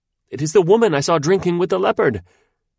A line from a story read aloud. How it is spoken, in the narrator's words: the lad cried out